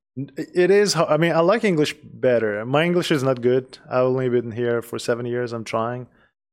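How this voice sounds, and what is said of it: Non-native English accent. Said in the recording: “I have accent, obviously. They can tell that, you know, say that I have accent.”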